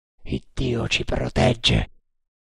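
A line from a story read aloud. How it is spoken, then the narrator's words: Murmur. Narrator (Italian): mormorò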